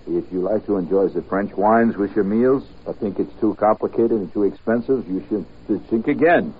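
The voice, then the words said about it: Put-on French accent. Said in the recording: “reading the French accent... It says pronounce shink again.”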